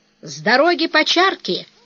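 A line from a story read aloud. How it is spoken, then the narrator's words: Cheerful shout. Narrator (Russian): весело крикнула Авдотья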